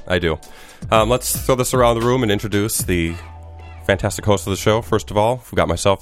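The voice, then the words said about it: Sick-sounding voice. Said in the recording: “You can hear by my voice, I'm feeling ... sick ... I'm drunk on cough syrup.”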